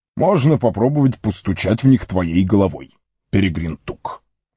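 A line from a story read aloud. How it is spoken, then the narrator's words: Irritated reply. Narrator (Russian): раздраженно ответил маг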